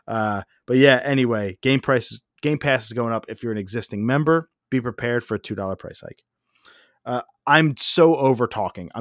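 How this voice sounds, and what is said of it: Hoarse, strained voice. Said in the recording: “I'm so hoarse. I don't even have a drink.”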